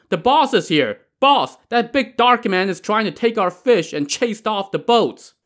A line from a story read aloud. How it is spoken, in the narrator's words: they all shouted